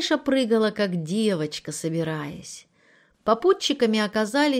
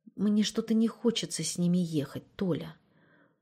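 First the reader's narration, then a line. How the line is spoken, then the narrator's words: Whisper. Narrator (Russian): шепнула Мариша мужу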